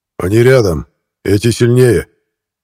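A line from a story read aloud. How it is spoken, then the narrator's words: Growl. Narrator (Russian): прорычал Кронах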